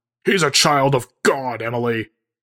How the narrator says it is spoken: Barnabas shouts before forcing his voice into an inside tone

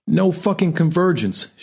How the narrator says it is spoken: she yells from the living room

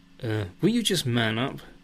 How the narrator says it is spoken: snaps Lisa

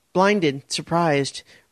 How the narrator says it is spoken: Raina cried out

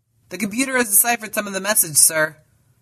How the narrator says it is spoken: called out the communications officer

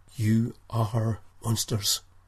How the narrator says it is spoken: whispered Nikolai

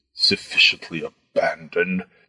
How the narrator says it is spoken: the fat man muttered

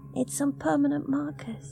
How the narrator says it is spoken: she said softly

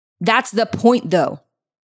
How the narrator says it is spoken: he nearly shouted

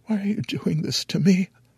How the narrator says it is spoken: I whimper

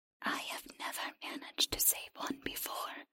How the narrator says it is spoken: the creature whispered

